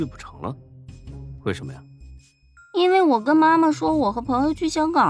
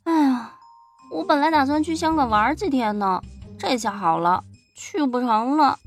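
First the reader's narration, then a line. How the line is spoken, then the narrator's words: Sighing. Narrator (Chinese): 夏佳琪又叹了口气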